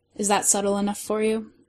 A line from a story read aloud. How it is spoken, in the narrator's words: Sherlock whispered with a smile